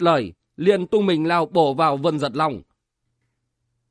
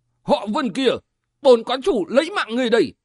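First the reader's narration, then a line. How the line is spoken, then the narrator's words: Furious shout. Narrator (Vietnamese): đôi mắt răng đầy tia máu bỗng quắc lên, quát giọng nói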